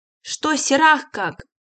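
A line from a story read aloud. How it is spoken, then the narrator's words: Shout. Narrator (Russian): крикнул Лобов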